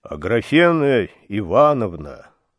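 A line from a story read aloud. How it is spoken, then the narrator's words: Timid. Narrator (Russian): робко сказал Евсей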